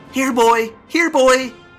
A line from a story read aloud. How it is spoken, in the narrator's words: some kid yelled